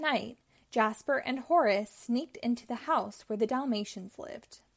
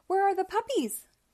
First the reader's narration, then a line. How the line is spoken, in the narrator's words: cried Purdy